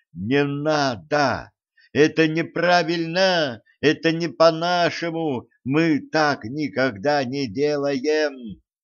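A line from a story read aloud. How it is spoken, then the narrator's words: Hysterical screaming. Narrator (Russian): Моя кроличья душонка заходилась в истерике и истошно вопила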